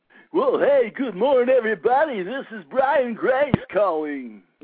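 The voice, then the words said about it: Radio DJ voice. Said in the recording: “Are you Bullwinkle today or what? ... I was trying to be Grady Motes there. ... You got to have the echo, man. ... That was actually my DJ voice.”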